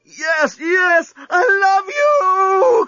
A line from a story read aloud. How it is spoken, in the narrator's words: cried Lucy